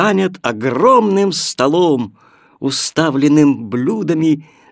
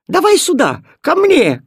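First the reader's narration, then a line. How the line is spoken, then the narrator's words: Overlapping shouts. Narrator (Russian): кричали они наперебой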